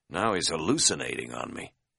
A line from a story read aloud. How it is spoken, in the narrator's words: muttered privately